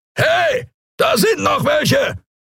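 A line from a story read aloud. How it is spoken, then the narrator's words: Roaring creature voice. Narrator (German): brüllte eine Skria-Stimme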